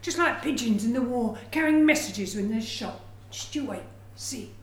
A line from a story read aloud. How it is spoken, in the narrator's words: old man wheezed